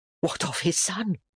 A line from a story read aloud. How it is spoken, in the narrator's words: the woman asked in an appalled whisper